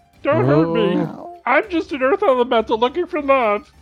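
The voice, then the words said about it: Weird character voice. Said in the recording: “this is its voice. Its voice is this. ... I have a really weird voice.”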